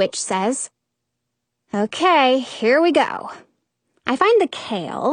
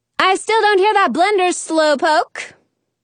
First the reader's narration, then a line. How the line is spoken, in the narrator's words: the witch shouts